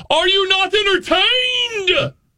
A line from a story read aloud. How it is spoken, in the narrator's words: scream